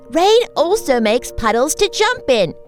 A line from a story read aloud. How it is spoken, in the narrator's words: Miss Mary Lou laughed